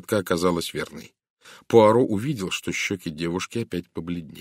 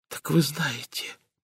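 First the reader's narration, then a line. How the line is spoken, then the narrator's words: Whispered. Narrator (Russian): прошептала она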